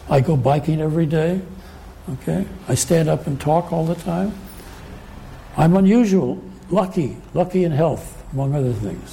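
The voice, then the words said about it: Strained, fading voice. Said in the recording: “I'm losing my voice, little problem here”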